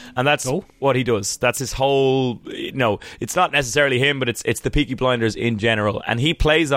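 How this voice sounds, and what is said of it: Usual voice. Nothing is said of it.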